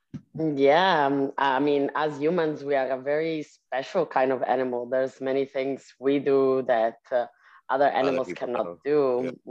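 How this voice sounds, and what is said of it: Speaks with an appealing accent. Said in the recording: “You sound so sexy. Ooh, you do. I love your accent”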